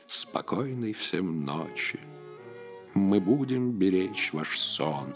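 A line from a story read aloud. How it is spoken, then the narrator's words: Creatures purring. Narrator (Russian): мурлыкали дофин и авер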